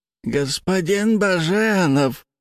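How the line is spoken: Quavering voice. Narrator (Russian): проговорил аристократ дребезжащим голосом

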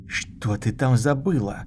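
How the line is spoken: Hissing. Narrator (Russian): прошипел он

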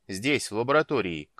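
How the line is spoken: Shouting back. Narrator (Russian): крикнул он в ответ

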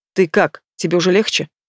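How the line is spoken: Strained calm. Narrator (Russian): Выдавливает из себя Стас привычно спокойным тоном

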